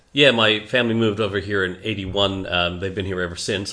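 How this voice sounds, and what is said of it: Canadian accent. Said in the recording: “I picked up from your accent straight away. You're originally from Canada.”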